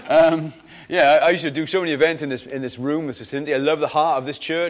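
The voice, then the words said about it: Mixed Welsh Valleys-Cardiff accent. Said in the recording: “I'm kind of a Valleys Cardiff mongrel... my accent's all over the shop”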